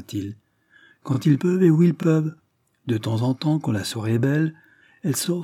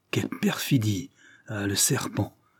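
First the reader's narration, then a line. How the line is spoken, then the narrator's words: Astonished, indignant murmur. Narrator (French): murmura Ravensbird, au comble de l'étonnement et de l'indignation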